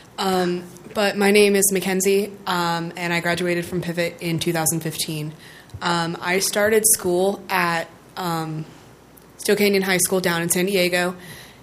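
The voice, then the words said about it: Hoarse, fading voice. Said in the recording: “I'm losing my voice, so I sound a little funny”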